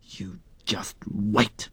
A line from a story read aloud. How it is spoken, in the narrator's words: Rata hissed